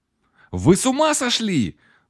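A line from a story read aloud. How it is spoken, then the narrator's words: Exclaimed. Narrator (Russian): Воскликнула она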